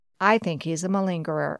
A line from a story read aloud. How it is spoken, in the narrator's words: a cardiologist said